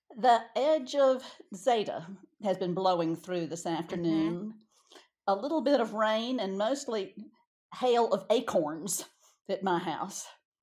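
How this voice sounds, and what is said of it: Speaks with a regional accent. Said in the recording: “my accent”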